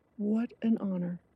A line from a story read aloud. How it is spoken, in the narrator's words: I whispered